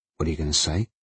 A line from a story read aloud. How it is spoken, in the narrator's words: Andrew had muttered, scared